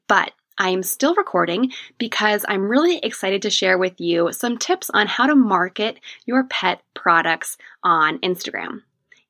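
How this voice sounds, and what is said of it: Slightly hoarse, sore-throat voice. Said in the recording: “now I have a little bit of a sore throat ... my voice is a little bit off today”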